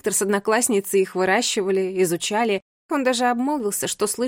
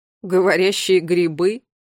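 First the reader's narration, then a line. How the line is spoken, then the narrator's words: Snorting. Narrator (Russian): хмыкнул Ларри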